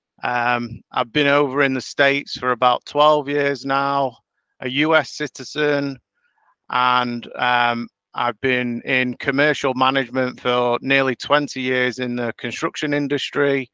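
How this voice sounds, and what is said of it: Northern English accent. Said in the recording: “We've got similar accents ... We come from the same part of the world in Northern England.”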